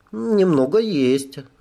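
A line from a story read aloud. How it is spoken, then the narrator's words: Mocking amused tone. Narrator (Russian): она насмешливо улыбнулась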